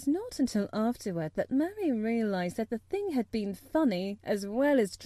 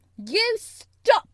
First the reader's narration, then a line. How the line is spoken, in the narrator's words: she almost shouted